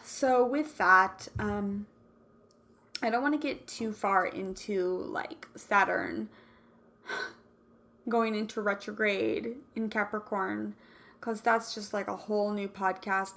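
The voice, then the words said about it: Worn-down, tiring voice. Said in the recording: “my voice is starting to, like, get worn down”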